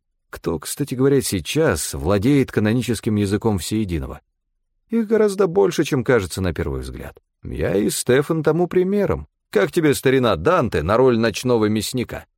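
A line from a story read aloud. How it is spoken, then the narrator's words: Laughing. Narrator (Russian): рассмеялся он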